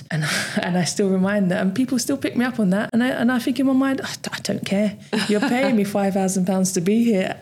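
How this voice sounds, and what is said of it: Accent with dropped Ts, TH as F. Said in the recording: “accent wise and how I sound and how often I drop my T's and pronounce TH the same as I pronounce my F's”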